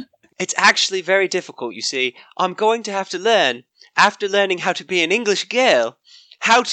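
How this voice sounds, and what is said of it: Usual voice. Nothing is said of it.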